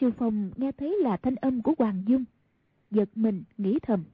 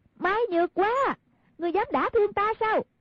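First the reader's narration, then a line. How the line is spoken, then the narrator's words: Midair shout. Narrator (Vietnamese): Hoàng Dung thân hình trên không quát lên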